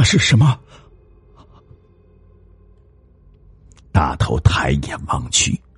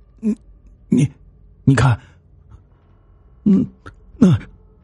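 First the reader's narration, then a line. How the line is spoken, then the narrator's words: Trembling question. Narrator (Chinese): 秋生颤声的问大头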